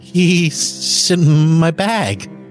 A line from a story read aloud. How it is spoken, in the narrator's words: I stammered